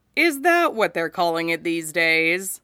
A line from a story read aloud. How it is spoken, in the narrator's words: she asks dryly